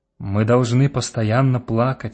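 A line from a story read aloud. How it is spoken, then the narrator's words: Plain. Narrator (Russian): сказал старец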